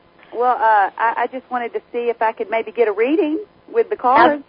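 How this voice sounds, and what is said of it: Slight Southern US accent. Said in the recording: “Got a little accent there. ... Southern Belle.”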